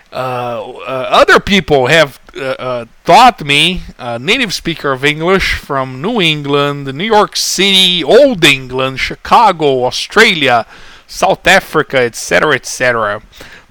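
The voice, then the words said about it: Brazilian accent in fluent English. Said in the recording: “this is actually a fairly typical Brazilian accent from someone who's fluent in English but hasn't quite mastered American pronunciation”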